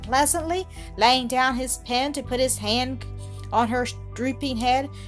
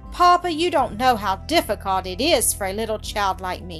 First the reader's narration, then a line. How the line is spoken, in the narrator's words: she sighed